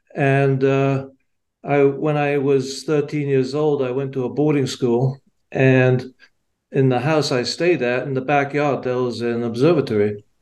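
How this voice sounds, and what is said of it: English accent. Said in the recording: “I was born and raised in England, as you can probably tell by my accent.”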